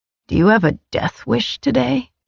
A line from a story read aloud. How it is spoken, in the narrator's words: He growled